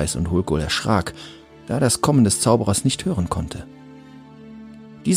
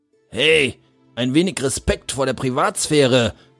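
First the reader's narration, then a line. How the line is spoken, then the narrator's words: Indignant call. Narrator (German): rief Hulkul entrüstet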